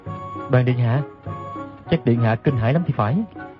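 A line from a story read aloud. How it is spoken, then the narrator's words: Soft, smiling. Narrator (Vietnamese): Đoàn Dự mỉm cười khẽ nói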